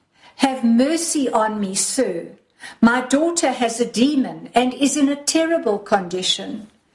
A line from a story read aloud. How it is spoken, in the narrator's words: cried